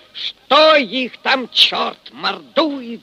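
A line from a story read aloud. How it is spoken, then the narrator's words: Annoyed exclamation. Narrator (Russian): С досадой воскликнул Фомин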